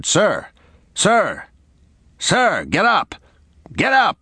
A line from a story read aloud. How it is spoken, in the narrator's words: shouted